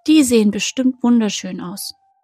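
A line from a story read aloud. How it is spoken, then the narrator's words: Calling out. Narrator (German): rief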